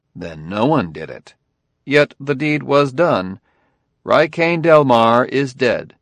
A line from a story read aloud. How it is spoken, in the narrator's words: Bailey said calmly